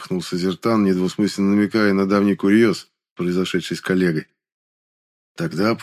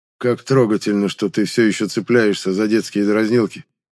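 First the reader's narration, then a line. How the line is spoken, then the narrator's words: Cold, condescending retort. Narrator (Russian): Холодно, но в то же время снисходительно парировал Рундар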